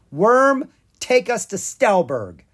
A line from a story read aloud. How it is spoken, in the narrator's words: Drake cried